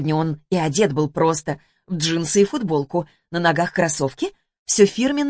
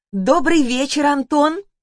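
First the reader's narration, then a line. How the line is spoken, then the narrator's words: Joyful exclamation. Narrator (Russian): радостно воскликнула Лана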